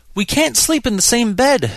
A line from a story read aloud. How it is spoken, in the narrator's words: she wailed